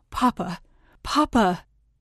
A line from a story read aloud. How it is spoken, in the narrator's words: Gareth cries out